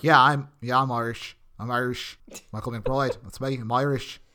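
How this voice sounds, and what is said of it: Bad put-on Irish accent. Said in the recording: “this terrible accent”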